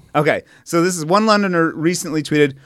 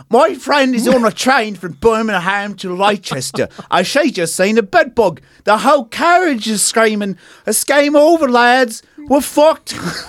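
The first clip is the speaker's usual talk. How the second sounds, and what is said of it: Put-on English accent. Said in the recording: “I got to get back into my English accent.”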